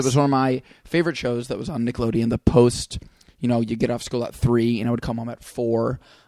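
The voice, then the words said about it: Fatigued, hoarse voice. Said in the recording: “My voice is a little fatigued right now ... I had to like really shout to be heard ... hoarse voice”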